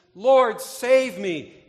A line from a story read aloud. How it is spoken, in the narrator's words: When Peter was sinking in the waves, he cried out to Jesus